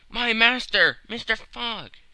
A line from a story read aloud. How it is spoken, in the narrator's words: cried he